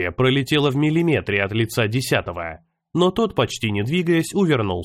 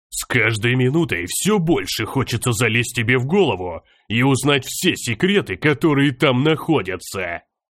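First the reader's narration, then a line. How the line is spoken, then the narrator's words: Growl. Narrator (Russian): Прорычал он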